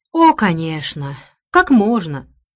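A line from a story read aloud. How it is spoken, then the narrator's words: Sigh. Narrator (Russian): вздохнула Рэйчел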